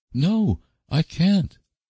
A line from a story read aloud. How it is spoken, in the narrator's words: exclaimed Anne desperately